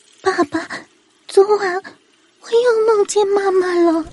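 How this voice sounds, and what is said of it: Quiet, hushed child's voice. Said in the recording (Chinese): “小声的说道”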